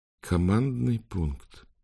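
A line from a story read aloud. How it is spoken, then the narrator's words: Whispered. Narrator (Russian): прошептала Амбра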